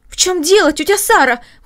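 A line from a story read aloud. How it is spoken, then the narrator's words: Exclaiming. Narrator (Russian): воскликнула Маша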